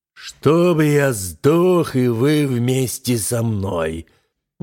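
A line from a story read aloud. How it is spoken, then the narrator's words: Sudden thunderous furious shout. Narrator (Russian): вдруг закричал громоподобным голосом вмиг покрасневший от гнева новоприбывший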